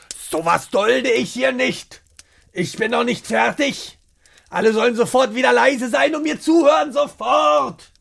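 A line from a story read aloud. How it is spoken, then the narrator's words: Shouting. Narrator (German): Seine Miene verfinstert sich und er schreit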